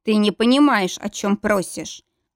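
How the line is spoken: Clipped, firm. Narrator (Russian): Отчеканил он

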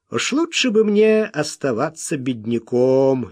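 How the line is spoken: Cheerful. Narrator (Russian): весело сказал

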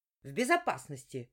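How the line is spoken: Sharp bark. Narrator (Russian): рявкнула я

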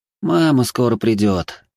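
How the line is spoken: Sighing. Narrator (Russian): вздохнул Гарри

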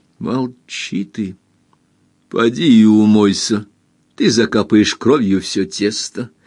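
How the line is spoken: Almost calm. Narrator (Russian): сказала хозяйка почти спокойно

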